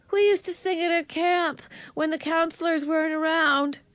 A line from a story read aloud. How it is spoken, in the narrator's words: she called out